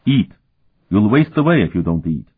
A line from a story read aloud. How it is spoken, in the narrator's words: Murtai said sharply